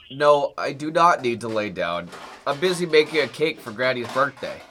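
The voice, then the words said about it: Congested voice with a cold. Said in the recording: “I have a bit of a cold.”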